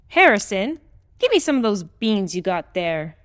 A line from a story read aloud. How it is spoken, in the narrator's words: the old woman yelled